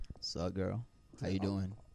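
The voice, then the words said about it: Put-on sexy, seductive voice. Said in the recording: “say something in your sexiest voice”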